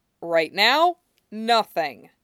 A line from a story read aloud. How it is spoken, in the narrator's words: Sheriff Stilinski says firmly